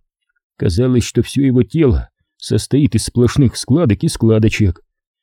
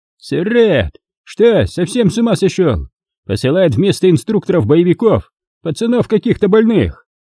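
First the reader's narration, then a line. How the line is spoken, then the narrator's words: Angry yell. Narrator (Russian): Командир со злостью заорал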